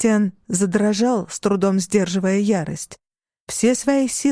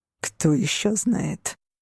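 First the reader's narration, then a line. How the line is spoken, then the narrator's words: Through gritted teeth. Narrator (Russian): процедил Кристиан сквозь сжатые зубы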